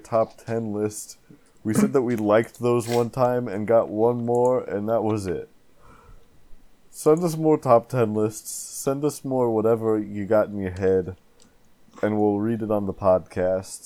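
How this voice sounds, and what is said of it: Put-on accent of unclear origin. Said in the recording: “Is your voice stuck like this forever ... I went into this accent, and I don't even know what it is, but I can't get out of it.”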